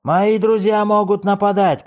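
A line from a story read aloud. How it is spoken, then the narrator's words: Shouting. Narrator (Russian): кричал он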